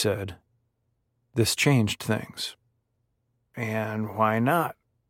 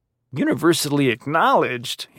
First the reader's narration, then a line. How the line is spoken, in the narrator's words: He scoffed